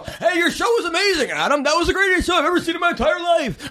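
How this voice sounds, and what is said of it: Imitates another person's voice. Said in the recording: “talks exactly like he does ... that's a terrible impression, but that's exactly how he is”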